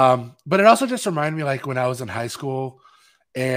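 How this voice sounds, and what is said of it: Usual voice. Nothing is said of it.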